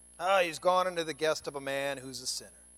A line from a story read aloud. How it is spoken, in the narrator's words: they all grumbled